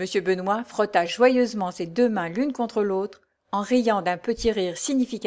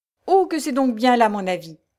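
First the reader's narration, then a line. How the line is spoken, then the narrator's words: Exclamation. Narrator (French): s'écria Benoît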